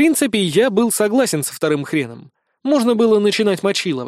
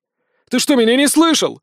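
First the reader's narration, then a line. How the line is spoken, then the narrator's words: Shouting. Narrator (Russian): закричал Иван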